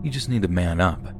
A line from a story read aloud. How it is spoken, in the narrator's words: they said